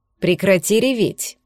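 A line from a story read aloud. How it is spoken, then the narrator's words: Stern. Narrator (Russian): строго сказал Кир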